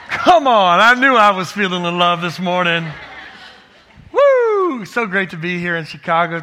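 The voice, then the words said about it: Texan accent. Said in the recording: “Forgive the Texan accent. I can't get rid of it.”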